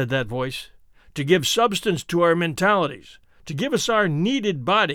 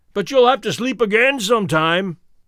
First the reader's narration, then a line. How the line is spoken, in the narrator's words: cried Lore